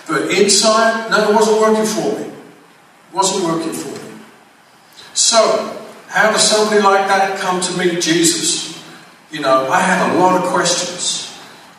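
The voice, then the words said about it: English accent. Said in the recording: “I grew up in England, as you most probably tell by the accent, that's where it comes from. It's England”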